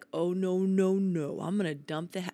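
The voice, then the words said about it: Imitates the voice of God. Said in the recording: “I can't impersonate him... That was pretty good.”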